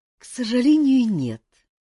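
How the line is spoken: Soft, smiling reply. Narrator (Russian): мягко улыбнулся почтенный Вэнь

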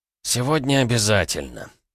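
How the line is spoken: Muttering. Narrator (Russian): пробурчал Туман

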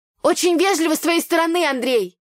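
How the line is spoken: Shouting after someone. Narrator (Russian): выкрикнула я парню в спину

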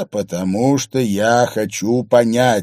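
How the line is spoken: Plain. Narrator (Russian): сказал Харри

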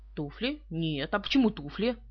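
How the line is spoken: Grumbling mutter. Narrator (Russian): Пуаро пробурчал

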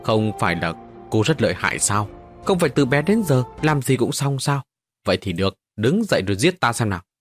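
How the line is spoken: Cold reply. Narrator (Vietnamese): Đầu cô Bài Thiên lạnh lùng đáp

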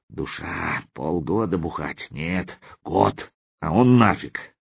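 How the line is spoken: Grunting mutter. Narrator (Russian): Крякнув, сталкер бормоча

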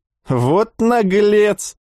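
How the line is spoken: Cheerful mock indignation. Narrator (Russian): весело возмутился Вячеслав

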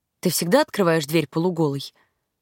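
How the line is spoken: Even tone, asking. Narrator (Russian): Ровным тоном поинтересовался он

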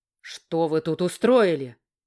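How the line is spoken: Barked. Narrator (Russian): рявкнул король

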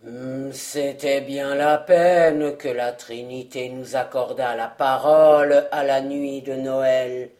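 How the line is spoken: Gruff. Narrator (French): dit-il d'un ton bourru

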